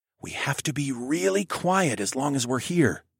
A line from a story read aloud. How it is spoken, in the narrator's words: I whispered